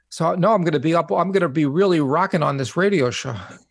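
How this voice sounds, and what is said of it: New York accent. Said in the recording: “You have that New York accent”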